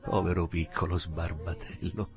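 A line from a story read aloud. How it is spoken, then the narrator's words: Murmuring. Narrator (Italian): mormorò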